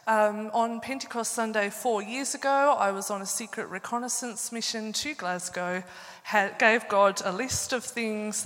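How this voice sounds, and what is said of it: Australian accent. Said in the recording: “you can hear an Australian accent.”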